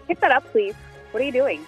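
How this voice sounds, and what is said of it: Staccato teacher voice. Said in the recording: “teacher voice ... There's a little more staccato feel to ... It.”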